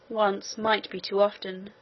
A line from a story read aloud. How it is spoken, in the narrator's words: murmured the king to himself